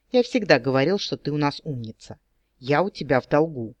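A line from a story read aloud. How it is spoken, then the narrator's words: Serious, solemn. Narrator (Russian): неожиданно серьезно и торжественно добавил он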